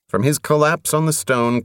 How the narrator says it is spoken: Covenant replied in a grotesque, stricken voice

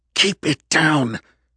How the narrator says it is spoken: Kendra hissed through her teeth at the man

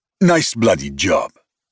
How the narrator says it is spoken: Bachi spat

